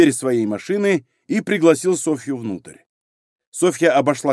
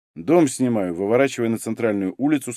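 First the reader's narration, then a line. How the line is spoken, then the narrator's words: Plain. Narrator (Russian): сказал Егор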